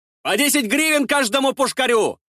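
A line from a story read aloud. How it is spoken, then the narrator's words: Shouting. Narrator (Russian): выкрикнул я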